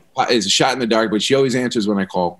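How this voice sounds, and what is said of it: New York accent. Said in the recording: “it's that New York accent”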